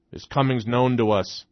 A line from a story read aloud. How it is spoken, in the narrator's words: a harsh and guttural voice growled